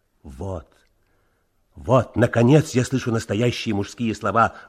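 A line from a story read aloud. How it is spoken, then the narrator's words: Admiring exclamation. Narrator (Russian): воскликнул Леонид Цымбал с восхищением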